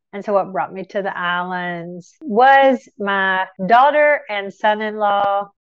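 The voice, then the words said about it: Tennessee accent, congested voice. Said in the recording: “you can probably tell from my accent, and I'm real stopped up today from allergies. I apologize for my voice, but I'm from Tennessee”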